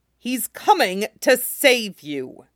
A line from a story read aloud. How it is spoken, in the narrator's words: Jaime said savagely